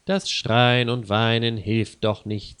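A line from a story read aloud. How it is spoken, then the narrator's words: Plain. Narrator (German): sagt Lisa Schmidt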